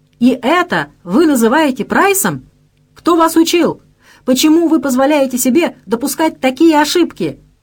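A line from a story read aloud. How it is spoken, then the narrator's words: Hysterical screaming. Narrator (Russian): Обдавая ее рыжую водолазку брызгами слюны, он истошно вопил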